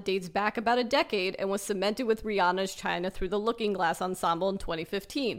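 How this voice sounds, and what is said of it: Usual voice. Nothing is said of it.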